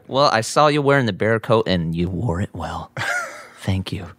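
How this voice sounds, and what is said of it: Creepy whisper. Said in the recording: “creepy voice there. Mm. Just say it normally. You don't need to whisper it like that”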